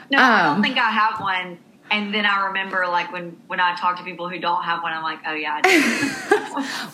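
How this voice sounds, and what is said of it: Southern American accent. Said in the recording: “She has the sweetest Southern accent.”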